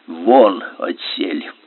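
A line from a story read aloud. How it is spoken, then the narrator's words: Quiet, hoarse. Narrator (Russian): тихо, хрипло сказал Корелу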